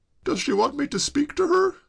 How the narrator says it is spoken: quavered George

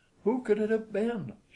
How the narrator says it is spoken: she cried

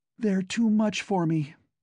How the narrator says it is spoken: Carol sighed to Kennicott

